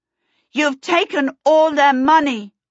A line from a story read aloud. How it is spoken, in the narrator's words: Charmaine called out